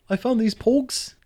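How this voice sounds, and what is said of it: Poor attempt at New Zealand accent. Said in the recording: “I can't do a New Zealander accent. That was awful.”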